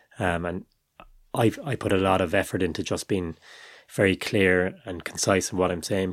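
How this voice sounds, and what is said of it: Strong Cork Irish accent. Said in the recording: “I've got quite a strong accent, a Cork accent.”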